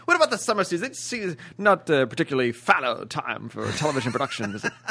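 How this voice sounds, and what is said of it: Put-on British accent. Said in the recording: “22 seconds of British talk ... His British accent has got you all confused ... when you do the British accent, you have to do the thing where you ask the question in the sentence.”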